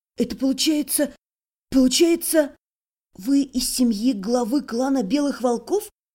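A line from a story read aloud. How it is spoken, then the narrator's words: Breathed realizing question. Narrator (Russian): Сообразив, выдохнула вопрос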